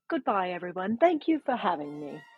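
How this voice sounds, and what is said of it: Weak put-on British accent. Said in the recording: “Can you tell everyone goodbye in your best British accent? ... That was not that great.”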